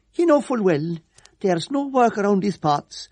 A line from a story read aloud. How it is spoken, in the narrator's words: whined